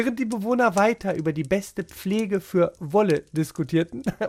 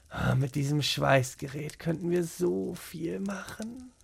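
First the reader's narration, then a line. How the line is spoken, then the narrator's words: Muttering to himself. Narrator (German): murmelte er vor sich hin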